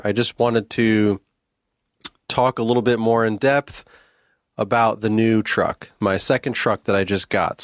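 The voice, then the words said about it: Raspy, partly lost voice. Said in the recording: “I'm losing my voice or whatever, or my voice is a little raspy ... I actually came down with a little sickness here, a little cold”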